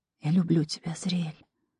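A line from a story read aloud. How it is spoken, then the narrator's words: Whisper. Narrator (Russian): прошептала ему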